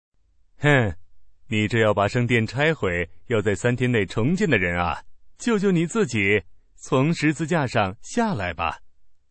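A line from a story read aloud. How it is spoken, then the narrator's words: Mocking. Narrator (Chinese): 过路的人都嘲笑他，摇着头说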